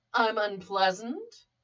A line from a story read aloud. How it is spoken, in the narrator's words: Ivy chuckled darkly